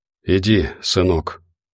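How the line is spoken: Barely audible. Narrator (Russian): едва слышно повторил тот

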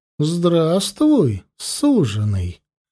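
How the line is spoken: Tender goddess. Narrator (Russian): ласково проговорила богиня

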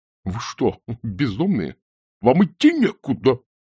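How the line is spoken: Hoarse wheeze. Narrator (Russian): просипел

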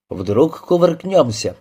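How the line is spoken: Cheerful. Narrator (Russian): весело предположил Петельников

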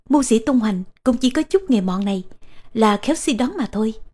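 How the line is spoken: Smiling. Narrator (Vietnamese): Tô Tần mỉm cười

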